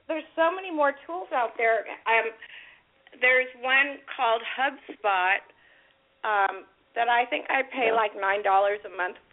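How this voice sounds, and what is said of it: Hoarse voice. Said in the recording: “I'm hoarse today... Yeah, I have a hoarse voice.”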